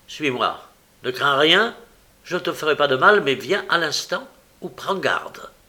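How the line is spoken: Curt voice. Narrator (French): je lui dis d'une voix brève

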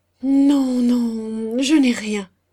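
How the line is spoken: Stammering. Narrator (French): bégaya-t-il

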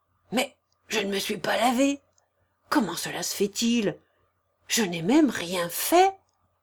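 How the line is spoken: Murmuring. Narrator (French): murmura-t-il

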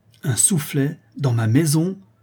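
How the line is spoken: Outraged exclamation. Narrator (French): s'écria la comtesse, véritablement outrée

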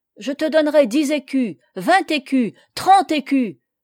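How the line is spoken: Exclamation. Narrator (French): s'écria-t-il

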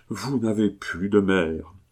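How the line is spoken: Pained sigh. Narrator (French): dit monsieur de Lamothe-Oudan, en poussant un soupir de douleur

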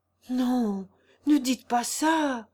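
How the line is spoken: Distressed cry. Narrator (French): s'écria Gervaise désolée

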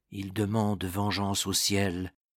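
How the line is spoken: Said quietly. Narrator (French): dit tout bas Mergy au capitaine des reîtres

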